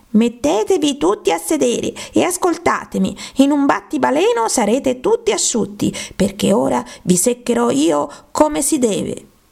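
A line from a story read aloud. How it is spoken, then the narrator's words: Authoritative mouse shouting. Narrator (Italian): il topo, che sembrava una persona autorevole fra loro, gridò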